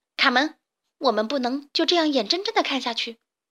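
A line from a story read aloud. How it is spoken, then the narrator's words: Angry. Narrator (Chinese): 卡门愤怒地说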